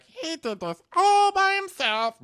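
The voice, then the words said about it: Weak impression of Candy. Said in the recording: “I have no Candy impersonation. I'm so sorry. ... I just don't have the range.”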